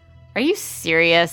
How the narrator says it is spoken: Sam asked, incredulous, almost laughing at the absurdity of Mark's claim

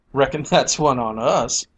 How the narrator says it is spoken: she laughed

